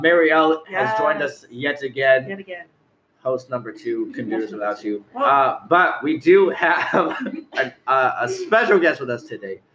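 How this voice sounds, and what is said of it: Hoarse, fading voice. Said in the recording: “I'm losing my voice, apparently.”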